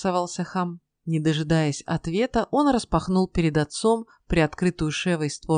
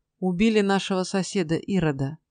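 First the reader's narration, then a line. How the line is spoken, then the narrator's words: Dry. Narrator (Russian): сухо ответил он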